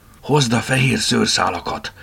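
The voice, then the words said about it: Whispered line. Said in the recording (Hungarian): “Suttogta a fülébe.”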